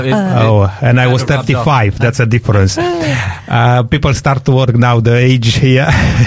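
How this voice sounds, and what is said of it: Foreign accent. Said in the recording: “he hasn't got that accent like like myself”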